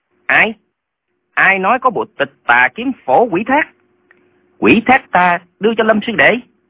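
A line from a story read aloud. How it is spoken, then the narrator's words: Trembling with anger. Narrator (Vietnamese): Lệnh Hồ Xung tức giận đến toàn thân phát run, nói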